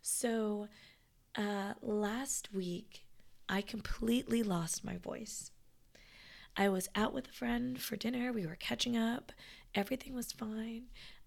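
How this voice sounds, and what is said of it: Raspy, hoarse voice. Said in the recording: “I'm a little bit more raspy than before”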